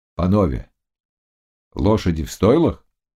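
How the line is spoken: Plain question, prince. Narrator (Russian): спросил князь

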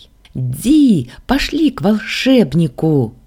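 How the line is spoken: Shrill squeal. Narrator (Russian): взвизгнула мелкая

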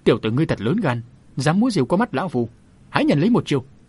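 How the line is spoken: Angry loud shout. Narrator (Vietnamese): Kim Giác Thần Đà đỏ mặt lên quát lớn

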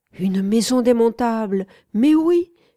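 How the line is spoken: Exclaimed. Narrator (French): s'exclama mon interlocuteur

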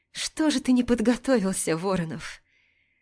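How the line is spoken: Trembling joke, holding back tears. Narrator (Russian): Пошутила дрожащим голосом, пытаясь не разреветься

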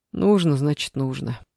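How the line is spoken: Sigh. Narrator (Russian): вздохнул Саша

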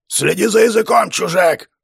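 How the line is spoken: Roared. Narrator (Russian): взревел вождь

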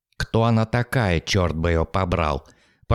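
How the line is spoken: Muttered. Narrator (Russian): Пробормотал он

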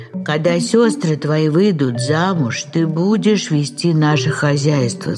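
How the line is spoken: Plain. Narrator (Russian): сказал купец

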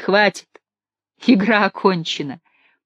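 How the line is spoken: Sudden laughter. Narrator (Russian): вдруг рассмеялась Афиненко

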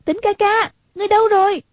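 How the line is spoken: Worried calling out. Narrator (Vietnamese): Hoàng Dung nghe giọng Quách Tĩnh trong lòng lo lắng, kêu lên

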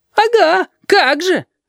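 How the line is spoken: Offended howl. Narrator (Russian): обиженно взвыл Филипп

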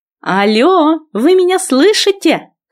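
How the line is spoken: Shout. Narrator (Russian): крикнула я

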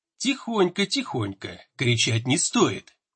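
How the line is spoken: Whispered in ear. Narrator (Russian): прошептали мне на ухо

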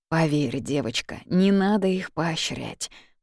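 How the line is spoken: Gloomy statement. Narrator (Russian): мрачно сообщает Ник

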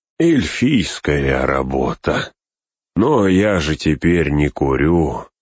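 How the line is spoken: Sighing. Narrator (Russian): вздохнул он

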